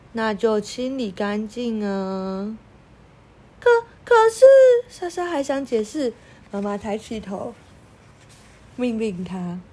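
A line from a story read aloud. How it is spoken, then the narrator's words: Slow, unhurried. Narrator (Chinese): 妈妈慢吞吞的说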